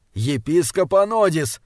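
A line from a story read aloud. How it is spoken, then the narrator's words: Nervous irritated shout. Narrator (Russian): нервно и раздраженно закричал Стренгьярд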